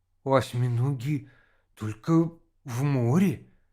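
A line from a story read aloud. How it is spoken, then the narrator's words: Uncertain. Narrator (Russian): неуверенно сказал Володя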